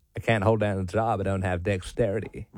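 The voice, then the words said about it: Character voice with deep southern accent. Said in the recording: “got a deep south accent.”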